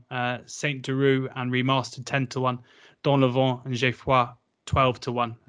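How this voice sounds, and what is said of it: Put-on French accent pronouncing names. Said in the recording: “A good bit of French accents. ... That is there. Impressive”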